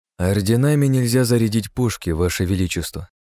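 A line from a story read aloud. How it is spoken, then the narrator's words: Plain. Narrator (Russian): ответил я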